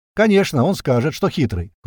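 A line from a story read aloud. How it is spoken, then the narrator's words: Smirking snort. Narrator (Russian): хмыкнул в ответ Туман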